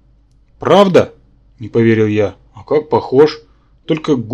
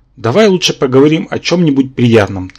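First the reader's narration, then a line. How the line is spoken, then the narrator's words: Hurried suggestion. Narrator (Russian): торопливо предложил Керранке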